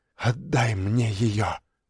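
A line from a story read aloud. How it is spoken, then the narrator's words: Hoarse girl. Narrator (Russian): хрипло сказала девочка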